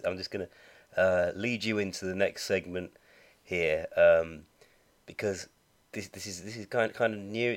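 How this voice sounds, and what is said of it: Slightly rough voice from cold. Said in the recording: “my voice wasn't going to be too rough for this. You see, I've been getting over a bit of a cold.”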